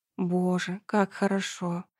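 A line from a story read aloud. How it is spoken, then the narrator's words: Moaning. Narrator (Russian): простонала она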